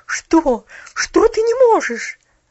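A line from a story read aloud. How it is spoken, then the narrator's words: Incredulous exclamation. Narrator (Russian): воскликнула миссис Керю, как будто сомневаясь в том, что ее уши слышат правильно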